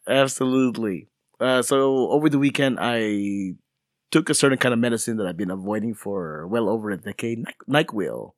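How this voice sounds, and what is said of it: Sick, congested voice from a cold. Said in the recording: “tell by my voice, but I'm fighting a cold right now.”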